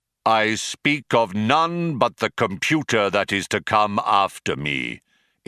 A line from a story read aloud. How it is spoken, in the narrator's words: intoned Deep Thought, his voice regaining its accustomed declamatory tones